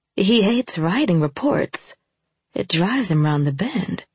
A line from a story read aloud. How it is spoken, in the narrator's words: I said quietly